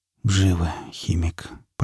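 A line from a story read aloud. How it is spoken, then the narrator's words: Muttered. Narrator (Russian): пробормотал напарник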